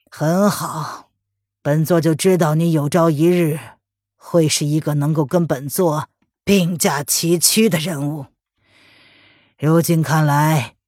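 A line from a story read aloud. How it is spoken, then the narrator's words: Calm despite pain. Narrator (Chinese): 文燕受了内伤，却依旧勉强忍着胸口的痛意，淡淡的说道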